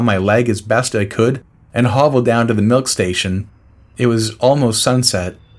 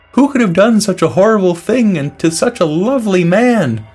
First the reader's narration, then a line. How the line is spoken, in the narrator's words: exclaimed